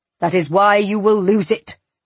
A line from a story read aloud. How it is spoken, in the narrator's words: Radu shouted